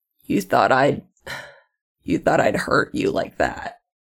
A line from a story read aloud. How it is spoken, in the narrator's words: he says, hoarsely